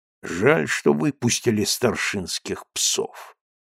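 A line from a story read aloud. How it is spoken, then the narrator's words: Gloomy mutter. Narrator (Russian): хмуро пробормотал Булавин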